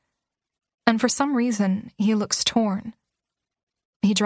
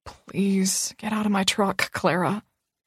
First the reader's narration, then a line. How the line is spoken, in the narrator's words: he whispers